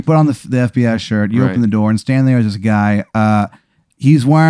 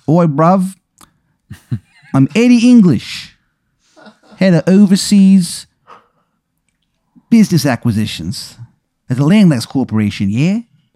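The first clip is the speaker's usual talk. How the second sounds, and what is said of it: Bad fake English accent. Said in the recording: “accent is fucking terrible ... It kind of sounds like an American trying to do an English accent and like failing miserably.”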